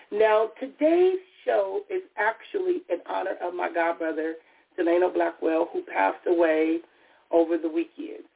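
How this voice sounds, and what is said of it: Raspy voice. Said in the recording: “my voice is still a little raspy. ... I was dealing with a cold”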